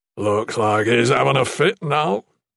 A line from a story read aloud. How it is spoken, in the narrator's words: Salem rumbled